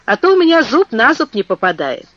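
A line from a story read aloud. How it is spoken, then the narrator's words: Laughing reply. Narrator (Russian): ответил, смеясь, Герберт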